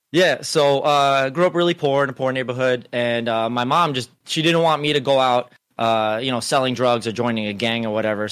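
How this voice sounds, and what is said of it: Slight New York Hispanic accent. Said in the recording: “I noticed you had a hint of an accent ... your inflections are just a little different ... It's a New York Hispanic accent.”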